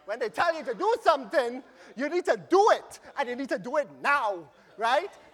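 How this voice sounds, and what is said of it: Trinidadian accent. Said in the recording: “my little Trini accent coming out”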